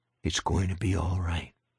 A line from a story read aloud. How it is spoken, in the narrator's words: murmured